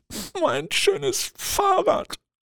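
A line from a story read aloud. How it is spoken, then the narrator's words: Sobbing. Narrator (German): schluchzt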